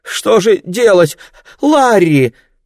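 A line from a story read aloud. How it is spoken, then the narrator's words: Mother crying out, struggling. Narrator (Russian): вскрикнула мама, с трудом вырываясь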